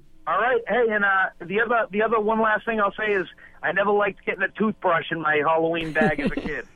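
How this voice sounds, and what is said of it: Caller's distinctive accent. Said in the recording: “I love that accent.”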